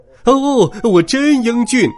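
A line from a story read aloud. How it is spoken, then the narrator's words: Loud exclamation. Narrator (Chinese): 大叫起来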